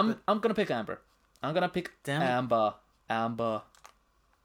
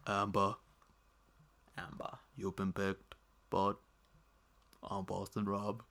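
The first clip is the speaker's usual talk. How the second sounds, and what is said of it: Poor imitation of another person's voice. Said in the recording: “That a Boston Rob impression? ... That's not. ... it wasn't good before you started smiling”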